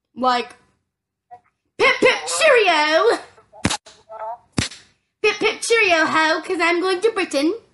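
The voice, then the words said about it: Bad put-on British accent. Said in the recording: “That's a horrible British accent”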